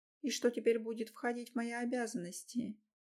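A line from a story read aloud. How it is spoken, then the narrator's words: Quiet hoarse voice. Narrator (Russian): Тихо, хрипло говорю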